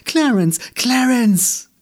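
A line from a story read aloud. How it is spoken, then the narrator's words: Woman calling. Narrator (German): rief sie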